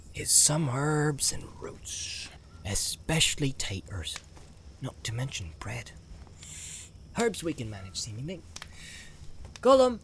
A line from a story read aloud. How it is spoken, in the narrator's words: he called softly